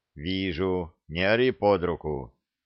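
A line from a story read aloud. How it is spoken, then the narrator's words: Calm reply. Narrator (Russian): спокойно ответил Саша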